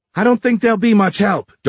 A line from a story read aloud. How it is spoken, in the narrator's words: Dora yelled